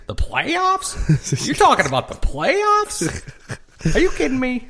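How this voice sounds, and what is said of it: Imitates another person's voice. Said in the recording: “That's a good impression.”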